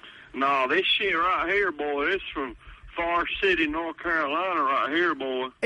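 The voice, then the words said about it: Thick, possibly fake regional accent. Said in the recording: “Is there any way this is a real accent? ... If that is a real accent,”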